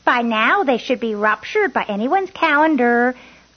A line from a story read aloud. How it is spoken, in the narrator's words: Coco shouted through the slatted door